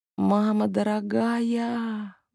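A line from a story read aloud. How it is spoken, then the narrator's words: Inner groan. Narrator (Russian): мысленно застонала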